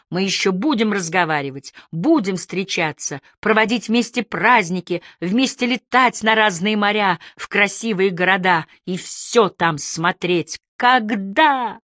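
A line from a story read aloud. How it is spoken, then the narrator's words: Woman shouting. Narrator (Russian): Тоже закричала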